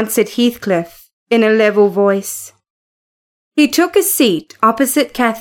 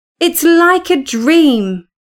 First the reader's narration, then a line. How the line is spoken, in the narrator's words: Kathy cried